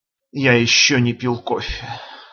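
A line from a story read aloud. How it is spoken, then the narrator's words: Tired speech. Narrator (Russian): сказал устало Гане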